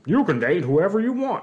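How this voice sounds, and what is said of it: Imitates another person's voice. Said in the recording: “my Dr. Phil impersonation.”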